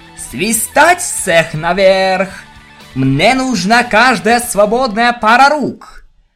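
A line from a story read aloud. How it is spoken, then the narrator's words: Fierce roar. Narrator (Russian): прорычала капитан Лира, гроза семи морей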